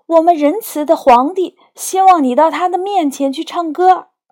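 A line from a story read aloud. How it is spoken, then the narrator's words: Joyful calling out. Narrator (Chinese): 欢喜地说，又对小夜莺喊道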